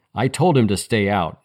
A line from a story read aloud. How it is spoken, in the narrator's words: she snapped